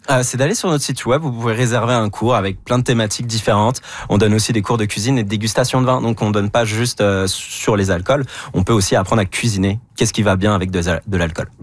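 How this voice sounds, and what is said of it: Non-Québécois French accent. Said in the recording (French): “vous êtes Québécois, malgré l'accent.”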